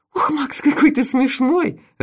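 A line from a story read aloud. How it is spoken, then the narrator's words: Laughing. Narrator (Russian): расхохоталась она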